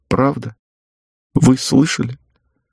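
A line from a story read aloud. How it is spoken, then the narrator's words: Tearful smiling question. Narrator (Russian): улыбнулась сквозь слезы и спросила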